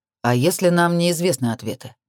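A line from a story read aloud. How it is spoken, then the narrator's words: Gloomy question. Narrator (Russian): мрачно осведомился Лукас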